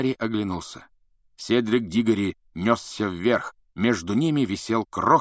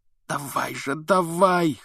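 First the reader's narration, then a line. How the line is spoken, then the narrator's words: Hoarse wheeze. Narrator (Russian): хрипел он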